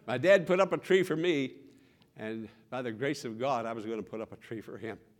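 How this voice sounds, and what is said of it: Emotional, choked-up voice. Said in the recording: “I'm getting emotional.”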